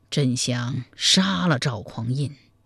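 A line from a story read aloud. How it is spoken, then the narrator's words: Deep sigh. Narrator (Chinese): 柴荣长叹一声说道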